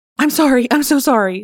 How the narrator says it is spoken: she blurted

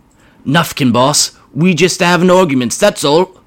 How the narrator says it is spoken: whimpered one of the Gretchens

